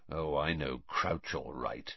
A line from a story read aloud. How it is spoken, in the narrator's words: he said quietly